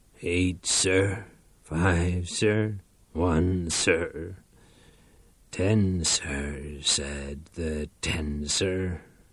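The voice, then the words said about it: Sings in a broken voice. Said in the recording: “He sang in a broken voice”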